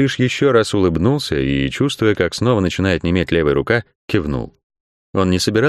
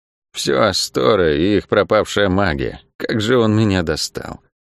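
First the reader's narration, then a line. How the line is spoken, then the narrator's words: Muttering while walking. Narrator (Russian): пробормотала Лавиани на ходу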